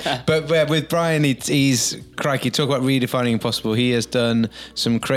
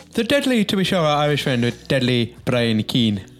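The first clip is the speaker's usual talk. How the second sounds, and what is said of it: Put-on Irish accent. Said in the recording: “That's my best Irish accent. ... I'm not sure that's the right part of Ireland or not, but that's the only Irish accent I've got.”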